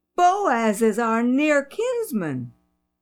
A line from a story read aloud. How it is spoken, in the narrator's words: she exclaimed